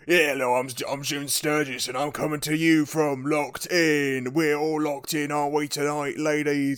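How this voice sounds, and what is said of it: Exaggerated Mockney accent. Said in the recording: “doing the worst Mockney accent you've ever heard. not in the worst”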